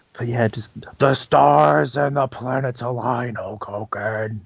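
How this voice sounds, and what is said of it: Impression of The Ultimate Warrior. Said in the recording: “That's such a good impression.”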